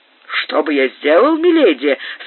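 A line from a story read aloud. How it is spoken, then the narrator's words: Enthusiastic exclamation. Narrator (Russian): с воодушевлением воскликнул маркиз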